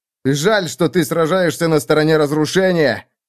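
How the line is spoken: Shout from a distance. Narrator (Russian): крикнул он оттуда

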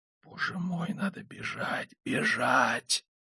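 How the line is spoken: Muttering. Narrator (Russian): пробормотал

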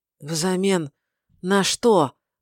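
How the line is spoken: Hoarse rasp. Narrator (Russian): прохрипел он

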